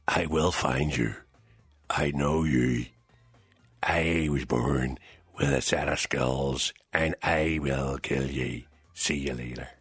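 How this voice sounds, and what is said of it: Liam Neeson impression, Northern Irish accent. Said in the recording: “it was Liam Neeson ... why did you do the wee Jerry accent? ... It's Liam Neeson from North. ... Liam Neeson does not sound like that.”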